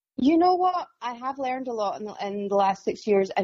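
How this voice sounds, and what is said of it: Scottish accent. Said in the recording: “the more Scottish I realize I am ... who love the accent”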